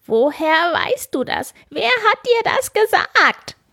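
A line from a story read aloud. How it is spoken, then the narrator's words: Little man's angry shout. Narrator (German): schrie das Männlein wütend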